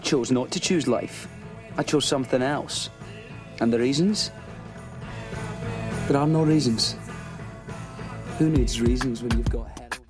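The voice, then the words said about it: Thick Scottish Edinburgh accent. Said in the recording (Chinese): “苏格兰爱丁堡的口音，超难懂的”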